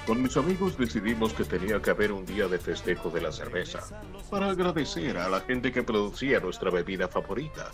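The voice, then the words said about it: Neutral-accent documentary narrator voice. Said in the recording (Spanish): “dígalo como lo dicen en los documentales... poner voz neutra... Ahora tengo mi locutor”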